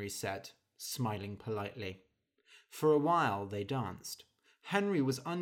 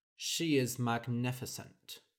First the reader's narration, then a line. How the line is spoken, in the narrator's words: said Henry dryly